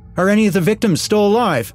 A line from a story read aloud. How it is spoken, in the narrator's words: yelled